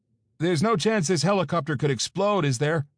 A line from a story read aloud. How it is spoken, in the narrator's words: I shouted down from where I was hanging in the empty doorframe of the helicopter